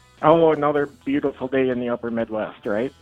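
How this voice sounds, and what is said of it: Sarcastic tone. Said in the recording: “I wish you weren't being sarcastic.”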